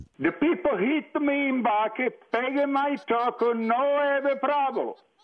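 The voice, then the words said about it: Bad put-on Italian accent. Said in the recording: “That's the worst Italian accent I've ever heard.”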